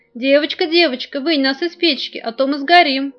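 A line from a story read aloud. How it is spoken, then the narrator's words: Loaves shouting. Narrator (Russian): хлебы и ей закричали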